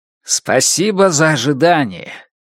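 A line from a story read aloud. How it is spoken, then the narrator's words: Loud. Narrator (Russian): громко проговорил Максим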